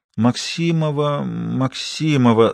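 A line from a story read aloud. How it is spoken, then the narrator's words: Thoughtful frowning repeat. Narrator (Russian): задумчиво повторила она, нахмурив брови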